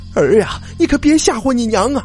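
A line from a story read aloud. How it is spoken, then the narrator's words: Shouting while rushing. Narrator (Chinese): 一边冲一边喊呢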